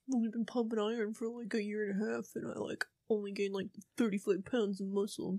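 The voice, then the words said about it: Deep-voiced impression. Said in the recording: “a really good Christian impression. ... if my voice was that deep.”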